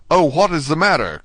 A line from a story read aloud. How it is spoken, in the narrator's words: cried Dante